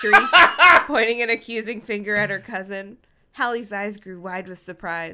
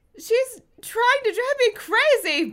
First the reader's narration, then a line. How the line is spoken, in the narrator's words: Brenda screamed, out of control